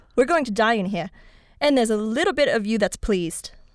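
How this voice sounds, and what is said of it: Put-on British accent. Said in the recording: “I liked the British accent”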